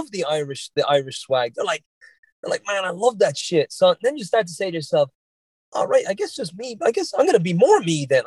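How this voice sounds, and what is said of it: Mild Irish Dublin accent. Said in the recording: “my Irish accent is not super strong. It's a little bit on the Dublin side ... every now and again, I'll say something that's a little Bostonian”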